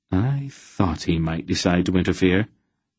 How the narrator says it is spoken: Aunt Paul said quietly

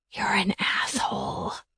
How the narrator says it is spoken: I whispered in his ear

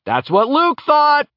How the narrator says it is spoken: Laertes shouted

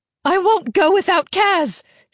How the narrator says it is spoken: she yelled

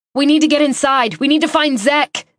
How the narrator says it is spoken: I said, shouting to Nick over the sound of shuffling feet

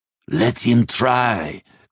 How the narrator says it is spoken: growled Einskaldir

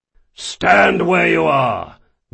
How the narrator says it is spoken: the eye in the lead bellowed

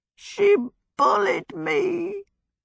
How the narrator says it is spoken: Calcifer said in a piteous, muffled voice from under the sizzling pan

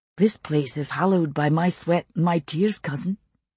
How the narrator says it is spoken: he said softly

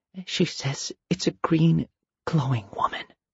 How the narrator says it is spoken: whispered

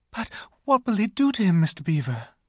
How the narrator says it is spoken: gasped Lucy

